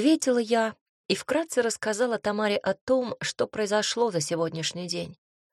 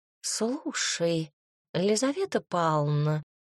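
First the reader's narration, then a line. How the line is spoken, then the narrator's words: Purring. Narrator (Russian): промурлыкала Тома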